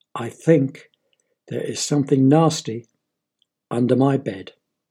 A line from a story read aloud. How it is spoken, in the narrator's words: With big tears running down his cheeks, very slowly said